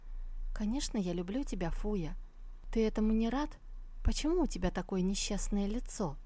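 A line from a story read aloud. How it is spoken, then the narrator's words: Calm reply after pause. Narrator (Russian): помолчав секунду ответил спокойным голосом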